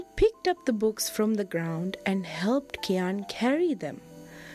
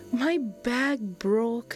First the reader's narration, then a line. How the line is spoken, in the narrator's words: Kian replied sadly